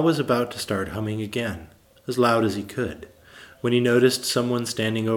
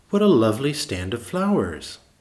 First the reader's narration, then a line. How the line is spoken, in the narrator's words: she exclaimed